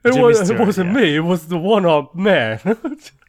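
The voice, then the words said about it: Imitates another person's voice. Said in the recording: “You're doing what's his name? ... Jimmy Stewart ... that's a really good impression”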